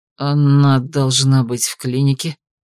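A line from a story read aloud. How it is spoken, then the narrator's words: Confused mumbling. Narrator (Russian): растерянно замямлил Эдик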